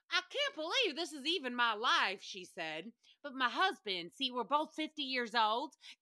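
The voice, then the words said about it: Southern accent. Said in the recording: “how do you do a Southern accent?”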